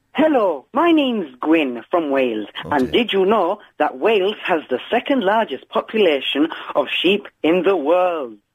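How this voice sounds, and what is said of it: Put-on Welsh accent. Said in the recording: “Can I do mine in a Welsh accent, please?”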